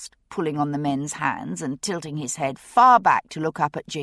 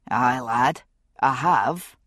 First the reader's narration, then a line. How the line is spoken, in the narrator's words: Jamie said dryly